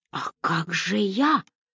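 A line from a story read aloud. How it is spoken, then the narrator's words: Hoarse bird-like voice. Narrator (Russian): осведомился Гарри Берг хриплым голосом птицы из джунглей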